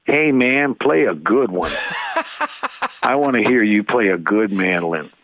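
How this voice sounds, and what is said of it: Imitates another person's voice. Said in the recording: “that is a good impersonation”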